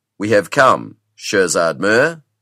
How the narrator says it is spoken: said Rajaman Singh

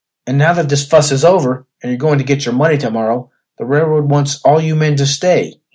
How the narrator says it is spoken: cried

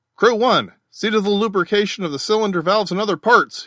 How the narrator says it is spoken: he cried

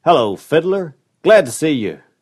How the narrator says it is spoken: cried the visitor

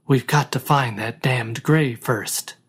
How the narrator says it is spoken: snapped the first voice grimly

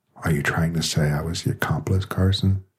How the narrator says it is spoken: she asked quietly

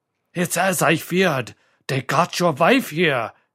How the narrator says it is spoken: he rasped

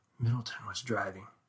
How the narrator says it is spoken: whispered

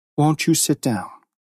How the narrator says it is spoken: with some effort to be calmly polite, said

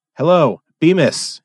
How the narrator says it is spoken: he cried

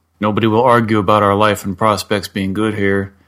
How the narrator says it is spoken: he thundered

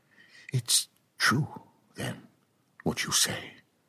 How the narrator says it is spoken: captain breathed

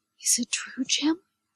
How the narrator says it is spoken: whispered

